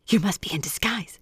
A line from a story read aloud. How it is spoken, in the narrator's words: she said breathlessly